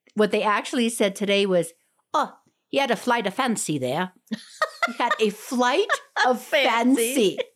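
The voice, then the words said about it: Poor put-on Irish or Scottish accent. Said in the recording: “my terrible Irish / Scottish accent.”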